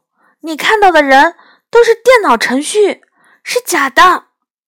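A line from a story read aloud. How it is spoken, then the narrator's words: Loud. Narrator (Chinese): 我大声说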